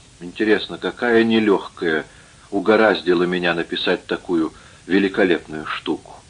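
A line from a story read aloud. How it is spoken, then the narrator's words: Gloomy muttering to himself. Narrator (Russian): он мрачно сказал как бы про себя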